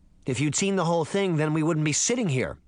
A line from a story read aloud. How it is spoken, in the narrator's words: Sabrina snapped, surprised by how quickly her anger had boiled over